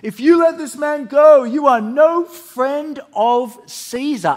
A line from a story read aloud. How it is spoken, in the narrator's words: But the Jewish leaders kept shouting